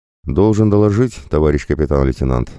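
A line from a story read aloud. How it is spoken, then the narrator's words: Plain. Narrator (Russian): сказал младший унтер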